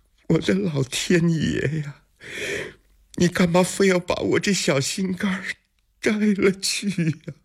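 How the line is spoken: Wailing. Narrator (Chinese): 长孙皇后大哭起来

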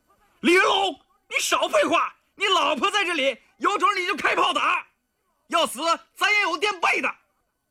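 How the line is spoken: Wild shout. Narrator (Chinese): 他狂喊道

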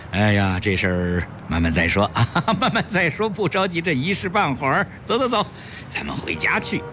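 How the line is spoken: Laughing, placating. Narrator (Chinese): 崔子昂哈哈大笑，接着打着圆场说

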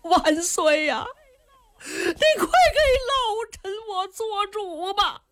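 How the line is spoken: Crying. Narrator (Chinese): 冲着杨广就哭

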